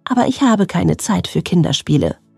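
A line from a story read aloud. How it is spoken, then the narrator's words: Murmuring. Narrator (German): hörte sie murmeln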